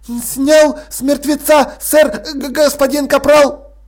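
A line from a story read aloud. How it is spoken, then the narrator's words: Shrill, genuinely furious. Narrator (Russian): В голосе Страппи, который при каждом удобном случае поднимался до визга, звучала неподдельная ярость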